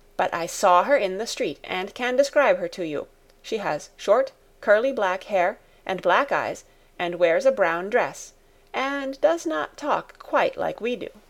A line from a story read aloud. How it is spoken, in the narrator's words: said in a determined voice